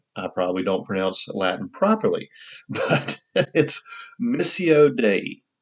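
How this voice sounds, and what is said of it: Southern American accent. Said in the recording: “I'm going to pronounce Latin with a Southern accent.”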